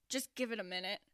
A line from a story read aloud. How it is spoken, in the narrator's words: Neil said, through his teeth